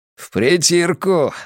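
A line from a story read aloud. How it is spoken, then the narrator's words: Laughing. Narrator (Russian): сказал он и рассмеялся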